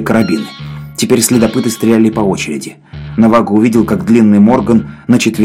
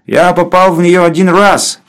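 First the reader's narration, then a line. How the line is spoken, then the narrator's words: Loud. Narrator (Russian): громко сказал Гэмфри Морган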